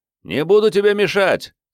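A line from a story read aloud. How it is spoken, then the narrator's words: Shouting. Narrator (Russian): крикнул он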